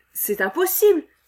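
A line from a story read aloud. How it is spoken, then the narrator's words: Group exclaiming. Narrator (French): s'écrièrent-ils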